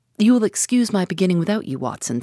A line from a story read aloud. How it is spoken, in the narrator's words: said he